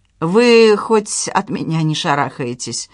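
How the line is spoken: Sighing. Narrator (Russian): вздохнула Надежда

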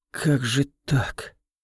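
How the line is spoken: Whispered. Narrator (Russian): прошептала Кайлин

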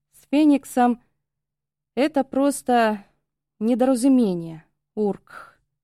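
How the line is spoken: Guttural bearlike growl. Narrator (Russian): Я по медвежье гортанно зарычала

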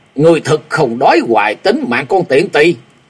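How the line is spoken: Loud roar. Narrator (Vietnamese): Tên kim điện bí sứ gầm to

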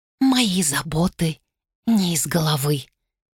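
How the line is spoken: Very quiet. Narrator (Russian): Очень тихо сказала Сабран

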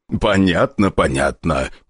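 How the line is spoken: Deep bass voice. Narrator (Russian): пробасил старший Селиванов

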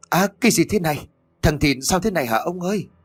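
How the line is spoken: Frantic cry. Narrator (Vietnamese): Tiếng của bà Tuất kêu lên thất thanh

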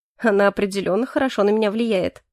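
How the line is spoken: Snorting. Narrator (Russian): хмыкнул я

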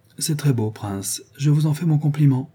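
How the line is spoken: Less gentle voice. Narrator (French): dit-elle d'une voix moins douce

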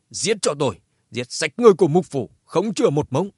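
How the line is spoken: Loud furious shout. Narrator (Vietnamese): Mục thanh chủ Hoài Thành hét to

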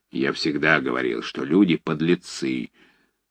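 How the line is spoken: Grumbled. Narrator (Russian): проворчал мышастый док

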